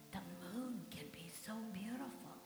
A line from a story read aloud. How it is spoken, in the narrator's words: he whispered with a sigh